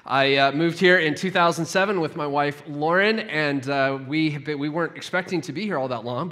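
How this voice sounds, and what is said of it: Non-local accent, not Sheffield. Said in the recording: “you might be able to tell from my accent, I am not a native Sheffielder”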